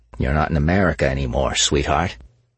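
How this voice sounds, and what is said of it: Humphrey Bogart impression. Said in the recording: “his best Bogart impression”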